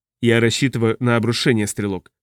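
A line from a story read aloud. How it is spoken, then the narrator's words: Plain. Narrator (Russian): сказал Зей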